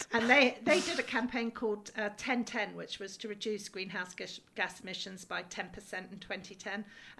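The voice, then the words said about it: English accent. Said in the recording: “You can hear my accent is English.”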